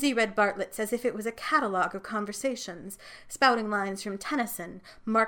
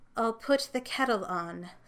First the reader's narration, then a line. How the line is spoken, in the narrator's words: sighed Ruth